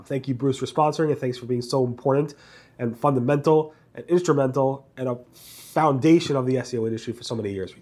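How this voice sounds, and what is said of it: Congested voice from a cold. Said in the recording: “apologize for my voice. A little bit sick this week. Pretty bad cold. ... a little bit congested”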